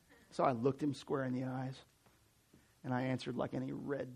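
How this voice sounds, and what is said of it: Usual voice. Nothing is said of it.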